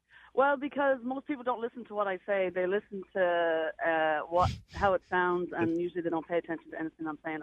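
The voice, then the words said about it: Irish accent, Dublin. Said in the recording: “guess ... accent ... All the way from Dublin ... You have the best accent.”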